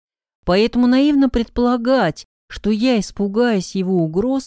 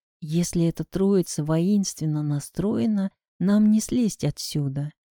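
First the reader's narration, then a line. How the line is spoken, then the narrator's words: Whispered. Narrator (Russian): сказал я шепотом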